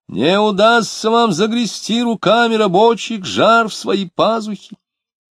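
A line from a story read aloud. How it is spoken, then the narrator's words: Shrill shout. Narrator (Russian): Кто-то пронзительно закричал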